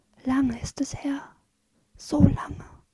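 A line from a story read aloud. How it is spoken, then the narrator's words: Whisper. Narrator (German): flüstert sie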